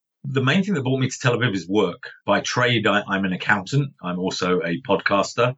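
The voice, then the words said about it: London English accent. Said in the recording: “as you can tell from my accent, I'm not born in Tel Aviv. I'm actually a Londoner.”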